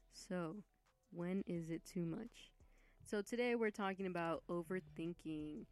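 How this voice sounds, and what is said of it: Announcer-style radio voice. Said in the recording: “let me give you a radio voice, y'all.”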